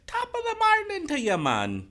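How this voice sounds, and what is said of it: Put-on Irish accent drifting Jamaican. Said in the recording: “Irish is the worst one because I start off sounding sort of Irish and then retrograde into Jamaican. ... Irish Jamaican.”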